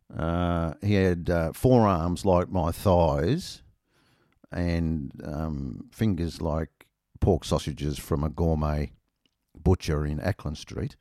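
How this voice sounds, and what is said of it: Australian accent. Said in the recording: “my accent was overheard ... I said I was Australian.”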